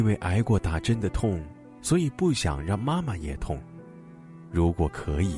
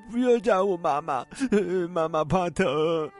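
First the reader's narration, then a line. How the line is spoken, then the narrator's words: Crying child pleading. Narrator (Chinese): 小男孩哭着阻拦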